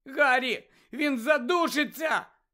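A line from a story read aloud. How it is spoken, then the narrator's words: Shout. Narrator (Ukrainian): крикнула Джинні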